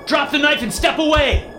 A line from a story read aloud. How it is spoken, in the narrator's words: I shouted, my heart thundering in my chest